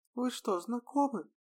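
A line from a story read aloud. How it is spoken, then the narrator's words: Muffled squeak from below. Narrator (Russian): Пискнула откуда-то из-под ложа Едвига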